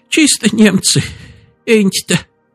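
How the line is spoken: Old woman, sobbing. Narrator (Russian): сказала бабка, всхлипнув

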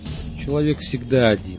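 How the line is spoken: Weary. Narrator (Russian): устало сказал Вербицкий

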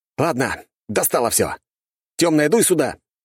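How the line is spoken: Barked, powerful voice. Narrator (Russian): рявкнул я в пространство, добавив мощи в свой голос

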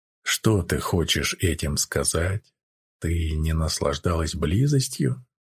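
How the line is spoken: Plain. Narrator (Russian): спросил Гэл

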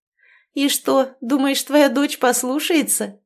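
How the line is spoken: Laughing. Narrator (Russian): рассмеялась княжна

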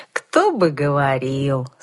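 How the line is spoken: Drawled in unison. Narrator (Russian): слаженно протянули друзья-коллеги

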